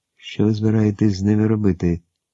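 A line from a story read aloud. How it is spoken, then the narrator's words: Plain. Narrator (Ukrainian): запитав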